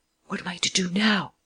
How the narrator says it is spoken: The man whispered to Lupin

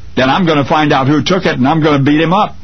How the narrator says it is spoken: the child blurted through angry tears

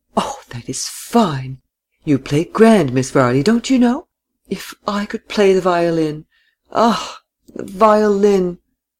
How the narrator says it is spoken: Miss Seyffert exclaimed continually

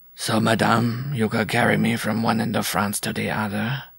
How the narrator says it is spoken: he droned in a monotonous undertone

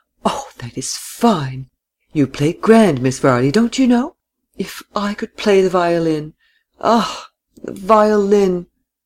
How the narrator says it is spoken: Miss Seyffert exclaimed continually

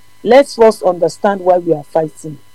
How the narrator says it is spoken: Greatheart said calmly

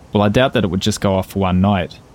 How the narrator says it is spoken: said Van Nieuwen

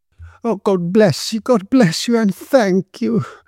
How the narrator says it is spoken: she exclaimed

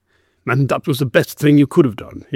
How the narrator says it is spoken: growled

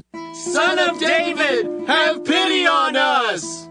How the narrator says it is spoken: two blind men began following him and shouting

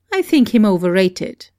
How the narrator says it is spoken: I replied

